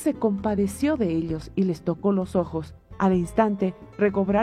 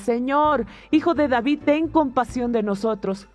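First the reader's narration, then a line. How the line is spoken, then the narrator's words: Shouting louder. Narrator (Spanish): ellos gritaban con más fuerza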